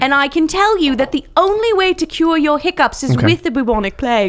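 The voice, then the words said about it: Put-on fancy British accent. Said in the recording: “Do you not hear my accent? ... you do sound very fancy ... British accent”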